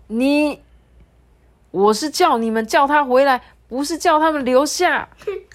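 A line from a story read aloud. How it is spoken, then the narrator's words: Loud. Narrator (Chinese): 喵星一号大声的对境外的喵星人说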